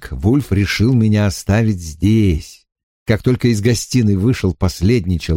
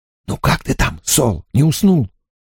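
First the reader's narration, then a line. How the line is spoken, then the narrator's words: Whispered. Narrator (Russian): я прошептал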